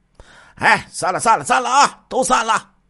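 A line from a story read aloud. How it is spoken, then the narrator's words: Shouting. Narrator (Chinese): 杨万军又喊了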